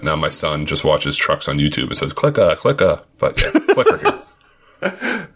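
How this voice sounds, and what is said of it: Boston accent. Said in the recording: “It probably sounds terrible with my Boston accent.”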